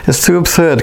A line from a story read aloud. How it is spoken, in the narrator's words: Kenneth said, laughing outright